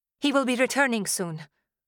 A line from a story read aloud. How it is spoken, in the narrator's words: I said quickly